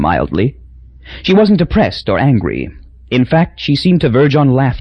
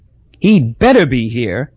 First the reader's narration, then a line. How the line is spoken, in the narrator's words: said bitterly